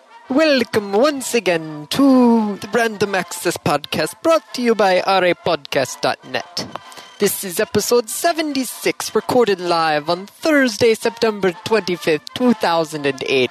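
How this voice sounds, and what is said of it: Bad put-on Italian accent. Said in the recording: “the worst Italian accent I can actually do ... That was just horrible. ... that was supposed to be Italian? ... that was supposed to be an Italian accent”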